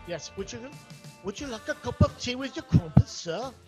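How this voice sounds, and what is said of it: Put-on British accent. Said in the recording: “my little imitation of the British.”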